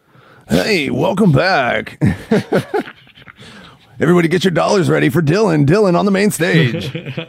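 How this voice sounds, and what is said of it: Strip club announcer voice. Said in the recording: “Doing the strip club voice.”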